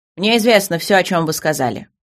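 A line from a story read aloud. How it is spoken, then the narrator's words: Irritated king. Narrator (Russian): ответил король раздраженно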